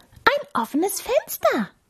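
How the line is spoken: Mouse squeaking. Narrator (German): piepste die Maus

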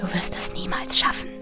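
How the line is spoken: Whisper in ear. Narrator (German): flüsterte eine Stimme in mein Ohr

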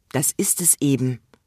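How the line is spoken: Sad sigh. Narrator (German): seufzte der Kalif, indem er traurig die Flügel hängen ließ

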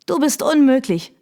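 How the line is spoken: Called out. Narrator (German): rief sie

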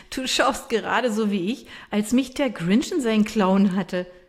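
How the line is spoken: Laughing. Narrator (German): sagt sie lachend

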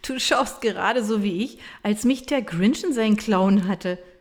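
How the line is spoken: Laughing. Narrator (German): sagt sie lachend

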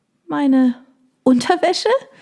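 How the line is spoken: Squeaky question. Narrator (German): fragte ich piepsig

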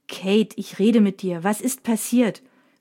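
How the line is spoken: Angry repeated question. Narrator (German): fragt Mina erneut, diesmal ziemlich wütend

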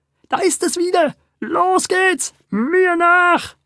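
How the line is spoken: Shouting. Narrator (German): schrie er

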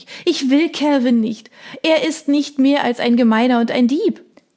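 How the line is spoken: Sobbing king. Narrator (German): schluchzte der König

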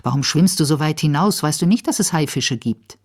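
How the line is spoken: Angry. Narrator (German): sagt zornig

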